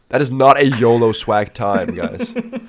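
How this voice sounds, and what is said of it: Wise old man Dumbledore voice. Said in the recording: “as Dumbledore would say ... Albus Dumbledore just sitting there, like, very wise ... old man voice”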